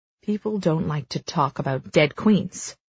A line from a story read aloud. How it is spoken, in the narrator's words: he snaps